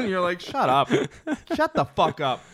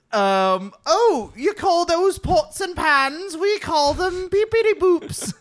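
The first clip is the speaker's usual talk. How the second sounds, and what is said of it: Bad put-on English accent. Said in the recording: “listen to an English person talk ... does an accent so badly”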